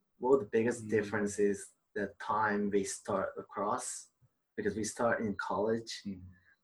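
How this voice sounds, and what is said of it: Slight English and Australian accent. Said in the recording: “You have a bit of an accent to an American ... Australian accent ... a little bit of English and Australian”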